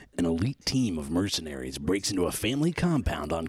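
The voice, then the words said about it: Movie trailer narrator voice. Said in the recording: “I'll do my trailer voice ... Trailer voice.”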